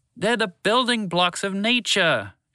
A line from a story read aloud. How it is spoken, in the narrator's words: Shalar shouted in frustration